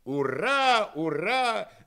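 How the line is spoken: Young men cheering. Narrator (Russian): закричали молодые англоманы

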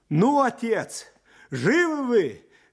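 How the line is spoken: Cheerful shouting. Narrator (Russian): весело кричал

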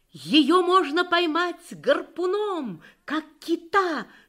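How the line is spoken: Triumphant exclamation. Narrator (Russian): с торжеством воскликнул он

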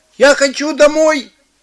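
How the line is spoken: Shouting. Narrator (Russian): закричал Чик

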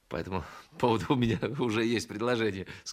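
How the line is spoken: Laughing while speaking. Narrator (Russian): сказал сквозь смех

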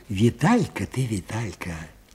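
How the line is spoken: Quiet repetition. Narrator (Russian): тихо повторил Аниськин

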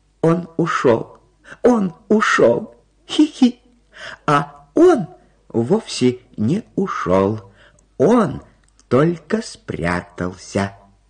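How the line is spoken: High squeak. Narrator (Russian): пропищал Карлсон

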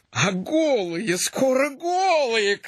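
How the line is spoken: Shouted. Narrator (Russian): крикнул Картошин

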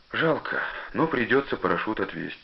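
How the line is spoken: Sighing father. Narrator (Russian): сказал отец и вздохнул

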